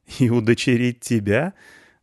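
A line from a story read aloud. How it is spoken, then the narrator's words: Laughing young woman. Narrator (Russian): засмеялась девушка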